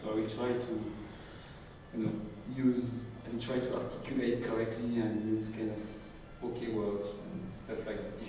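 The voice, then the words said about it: French accent. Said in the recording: “I'm French. You can guess it with my French accent. It may take a couple of time to accommodate to my accent”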